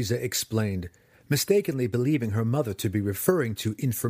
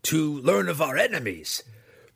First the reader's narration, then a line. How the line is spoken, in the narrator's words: Breeza blurted as she realized what her mother had in mind